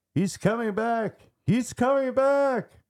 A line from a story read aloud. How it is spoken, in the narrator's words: Roland started screaming out